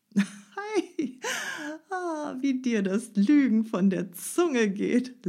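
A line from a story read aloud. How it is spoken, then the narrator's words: Laughing. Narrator (German): lachte Peter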